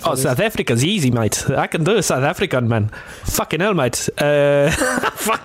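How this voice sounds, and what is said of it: Put-on South African accent. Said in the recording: “do you care to try and do a South African accent?”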